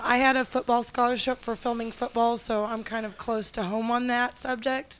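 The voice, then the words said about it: Hoarse, weak voice. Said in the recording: “I don't know if you can hear me. I lost my voice.”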